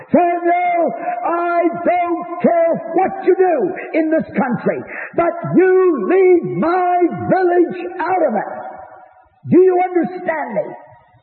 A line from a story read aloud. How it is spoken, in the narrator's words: screaming at the top of his lungs